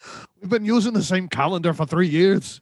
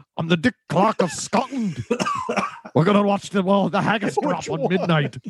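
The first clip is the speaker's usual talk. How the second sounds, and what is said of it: Put-on Scottish accent. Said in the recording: “That's the best Scottish accent I've heard all day.”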